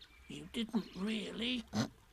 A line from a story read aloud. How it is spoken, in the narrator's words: whispered Piglet to Pooh, so as to comfort him